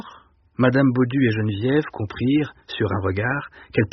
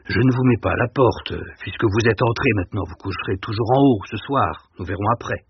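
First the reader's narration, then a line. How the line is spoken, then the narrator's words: Gruff tone. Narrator (French): il reprit d'un ton bourru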